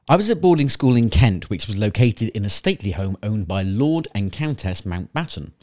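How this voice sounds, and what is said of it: Attempted Nottingham English accent. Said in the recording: “What accent do we have this time? ... I believe we were aiming for Nottingham, UK. But again, apologies to Mark.”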